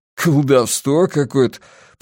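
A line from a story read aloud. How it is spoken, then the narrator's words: Speech with stifled chuckle. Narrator (Russian): проговорил Помбертон и сдавленно хохотнул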